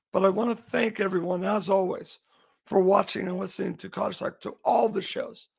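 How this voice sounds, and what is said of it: Hoarse, failing voice. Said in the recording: “As you can hear my voice, kind of losing my voice”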